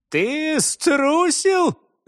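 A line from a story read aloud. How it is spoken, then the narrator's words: Carefree laugh. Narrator (Russian): засмеялся немец, безмятежно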